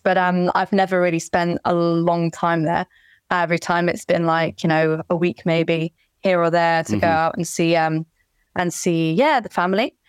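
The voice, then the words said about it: British English accent. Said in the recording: “your accent is misleading. Beautiful ... my whole family are from the UK, so that's kind of also why I have the accent”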